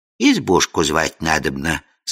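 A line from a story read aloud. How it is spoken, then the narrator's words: Perfectly calm. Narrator (Russian): совершенно спокойно отозвалась Яга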